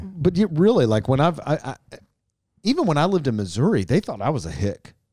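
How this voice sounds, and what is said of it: Kentucky accent. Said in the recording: “they could not believe my accent. And I don't feel like I know my accent. I have one for sure.”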